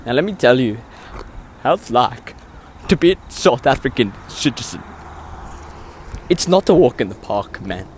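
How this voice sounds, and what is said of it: South African accent. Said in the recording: “my South African accent. It is genuine, pure South African accent ... your South African accent is funny”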